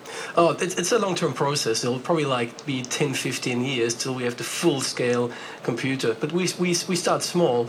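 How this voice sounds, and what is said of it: Foreign-accented English. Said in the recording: “You have a comforting foreign accent for this sort of thing ... you have the sort of accent where you say, oh, yes, this man knows what he's doing”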